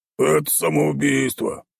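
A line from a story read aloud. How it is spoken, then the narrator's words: Grumbling. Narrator (Russian): проворчал он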